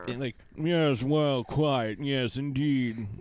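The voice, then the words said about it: Snooty, stuffy fake American-British accent. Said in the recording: “that's how he talks ... It's like a really bad American-British accent. ... it's like snooty and stuffy”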